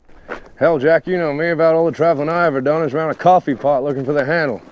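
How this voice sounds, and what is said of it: Closed-mouth Southern accent. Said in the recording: “Heath Ledger's character, because of his Southern accent, and is his sort of closed mouth Southern way of forming that accent”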